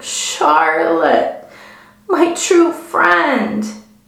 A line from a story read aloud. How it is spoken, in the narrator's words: he moaned